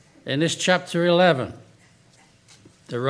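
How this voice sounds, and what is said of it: Usual voice. Nothing is said of it.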